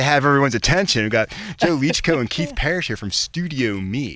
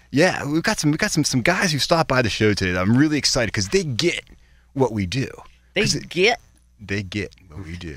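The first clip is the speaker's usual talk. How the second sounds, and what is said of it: Exaggerated radio announcer voice. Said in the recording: “That's his radio voice. ... That's my intonation going on there.”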